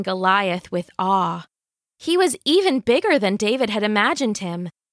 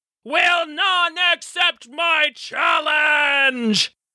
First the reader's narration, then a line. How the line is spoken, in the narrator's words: he roared